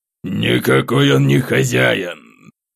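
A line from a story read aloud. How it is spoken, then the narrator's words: Growled. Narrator (Russian): рыкнул Шевцов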